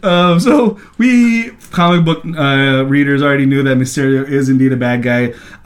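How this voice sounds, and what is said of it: Filipino accent. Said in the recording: “Lewis also came from the Philippines. ... This accent should go away already.”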